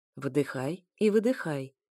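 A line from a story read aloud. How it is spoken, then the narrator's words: Soft, smiling. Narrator (Russian): мягко улыбнулся эфир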